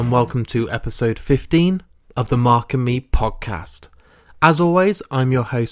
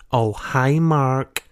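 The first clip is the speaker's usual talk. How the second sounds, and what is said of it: Poor imitation of another person's voice. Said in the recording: “that is a terrible impression”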